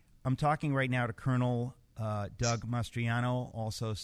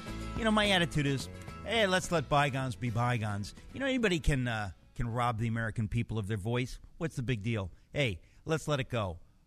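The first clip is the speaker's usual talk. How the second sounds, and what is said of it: Sarcastic delivery. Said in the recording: “I'm being sarcastic.”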